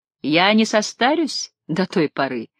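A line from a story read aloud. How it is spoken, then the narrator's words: Laughing. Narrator (Russian): рассмеялась Таис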